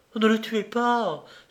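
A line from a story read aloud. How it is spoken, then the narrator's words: Pleading. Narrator (French): supplia Patricia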